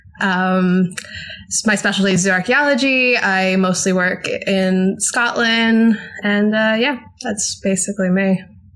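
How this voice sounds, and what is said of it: American English accent. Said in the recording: “As you can tell by my accent, I'm American.”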